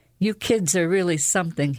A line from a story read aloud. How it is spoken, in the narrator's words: chuckled